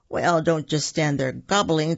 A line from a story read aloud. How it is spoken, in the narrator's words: Turkey said with a chuckle